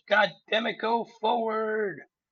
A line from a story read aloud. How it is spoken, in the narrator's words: he's screaming